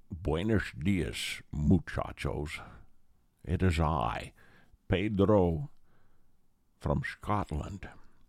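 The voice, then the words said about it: Sean Connery's Scottish voice attempting Mexican. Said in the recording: “Sean plays an important and powerful Moroccan sheik... who knew there was a Scottish sheik?... Mexican, something from Mexico... he never changes”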